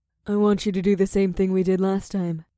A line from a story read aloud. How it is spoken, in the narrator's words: the witch giggled